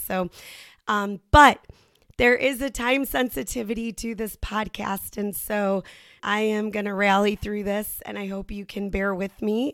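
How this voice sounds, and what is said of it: Very raspy, hoarse voice. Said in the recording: “as you can probably already hear in my voice, I know I'm kind of a raspy voice person at baseline, but now I'm exceptionally raspy ... I get laryngitis ... this hoarseness that I am bringing today”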